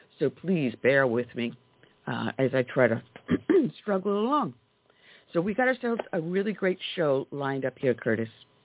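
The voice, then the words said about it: Hoarse, strained, fading voice. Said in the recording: “I've been seeming to lose my voice the last couple of days”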